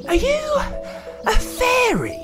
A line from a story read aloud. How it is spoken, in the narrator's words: breathed Cora in amazement